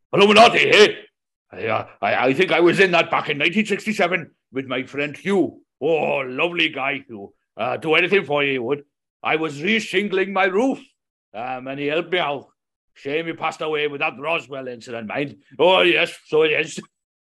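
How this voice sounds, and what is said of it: Put-on Welsh accent. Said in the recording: “Welsh. I've got to get my Welsh accent now”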